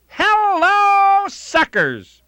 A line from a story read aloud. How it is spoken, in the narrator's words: Texas Guinan welcomed her customers by yelling out